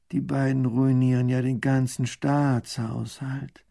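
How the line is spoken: Groaning. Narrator (German): Baron von Raffigny stöhnt

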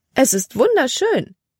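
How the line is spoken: Exclaimed. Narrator (German): rief sie aus

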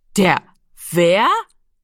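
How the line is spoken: Loud laughing. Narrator (German): Giro lachte laut auf

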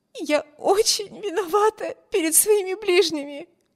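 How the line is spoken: Sobbing. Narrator (Russian): всхлипывала Эмми

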